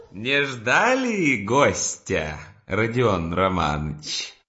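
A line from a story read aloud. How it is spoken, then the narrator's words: Laughing exclamation. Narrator (Russian): вскричал, смеясь, Порфирий Петрович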